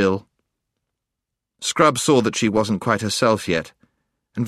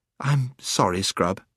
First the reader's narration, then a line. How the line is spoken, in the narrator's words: she said presently